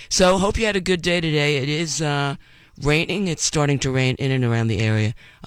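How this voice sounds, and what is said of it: Voice not fully recovered. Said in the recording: “Excuse my voice. It's still not 100%”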